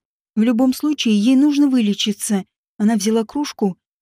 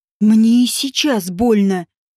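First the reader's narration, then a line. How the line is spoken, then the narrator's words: Rude, through gritted teeth. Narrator (Russian): грубо процедила девушка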